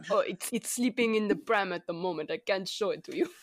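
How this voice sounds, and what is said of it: Terrible put-on German accent. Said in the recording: “This is our terrible space German accent”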